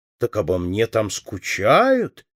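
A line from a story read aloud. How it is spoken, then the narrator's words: Joyful exclamation. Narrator (Russian): ликуя воскликнула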